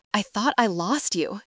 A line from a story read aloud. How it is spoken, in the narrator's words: whispers against her hair